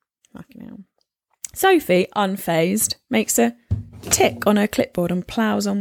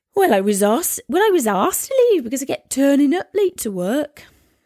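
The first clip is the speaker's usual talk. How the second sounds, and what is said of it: Attempted Welsh accent. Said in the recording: “I never said I could do a Welsh accent either”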